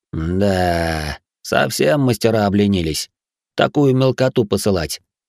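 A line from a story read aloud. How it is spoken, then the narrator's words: Grumbling. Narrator (Russian): пробурчал охранник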